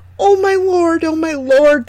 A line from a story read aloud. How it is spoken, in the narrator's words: they exclaimed